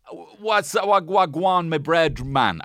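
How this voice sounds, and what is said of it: Brief put-on slang accent. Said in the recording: “I shouldn't have done the accent. I tried to bail on it immediately.”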